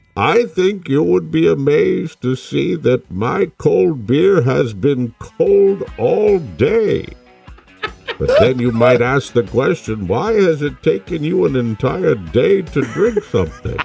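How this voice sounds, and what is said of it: Bane impression. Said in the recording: “your Bane impression”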